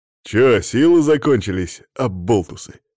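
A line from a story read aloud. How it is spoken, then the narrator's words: Snorting. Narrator (Russian): хмыкнул он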